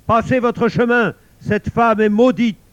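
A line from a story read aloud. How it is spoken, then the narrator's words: King shouting harshly from afar. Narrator (French): Le roi de son balcon leur cria rudement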